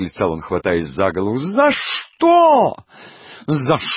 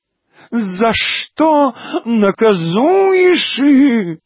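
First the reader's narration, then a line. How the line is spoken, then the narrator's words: Howling. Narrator (Russian): взвыл декадент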